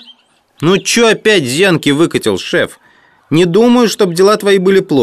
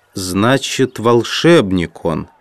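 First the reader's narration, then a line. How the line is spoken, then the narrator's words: Mutter. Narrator (Russian): пробормотал Джон Том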